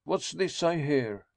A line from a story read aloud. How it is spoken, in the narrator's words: he cried